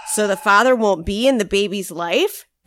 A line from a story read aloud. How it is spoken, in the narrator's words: asked Bull